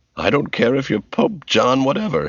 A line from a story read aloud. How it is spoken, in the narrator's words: she snorted